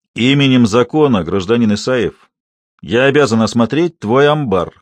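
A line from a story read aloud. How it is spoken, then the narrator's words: Menacing, clipped words. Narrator (Russian): грозно, чеканя каждое слово, сказал Бастрыков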